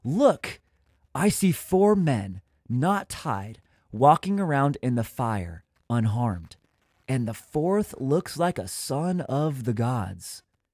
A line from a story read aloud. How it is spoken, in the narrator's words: he exclaimed